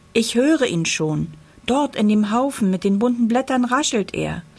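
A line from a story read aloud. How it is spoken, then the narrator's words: Little girl calling. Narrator (German): ruft da ein kleines Mädchen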